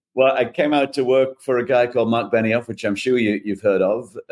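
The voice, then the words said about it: Non-native foreign accent. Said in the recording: “as you can probably tell from the accent, not a native of these shores”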